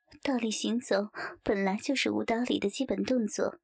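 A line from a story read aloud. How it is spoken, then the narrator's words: Faint casual smile. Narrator (Chinese): 刘雪华淡淡笑道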